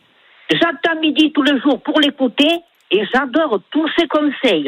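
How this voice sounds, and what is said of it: Sing-song regional French accent. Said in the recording (French): “votre accent chantant”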